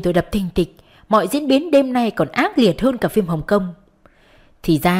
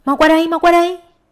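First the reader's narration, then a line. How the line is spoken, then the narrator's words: Shouting. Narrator (Vietnamese): Sammy và Ngố la lên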